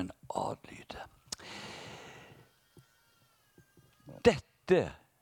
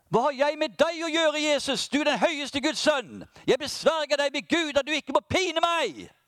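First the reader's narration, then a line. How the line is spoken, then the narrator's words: Loud shouting. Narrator (Norwegian): Han ropte med høy røst og sa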